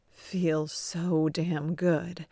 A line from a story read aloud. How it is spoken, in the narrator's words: he moans